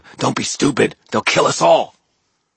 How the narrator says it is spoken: the woman growled at him

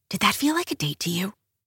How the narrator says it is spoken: I whisper

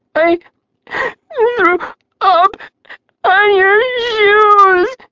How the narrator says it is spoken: she sobbed

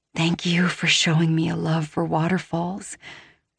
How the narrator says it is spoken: I whisper

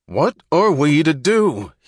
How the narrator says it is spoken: he yelled

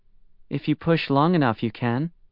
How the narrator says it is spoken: Zhuang Yan said

